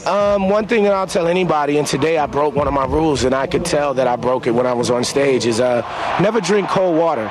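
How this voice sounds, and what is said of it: Slightly raspy voice. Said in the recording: “I'm a little raspy right now. I drank a couple of things of cold water today”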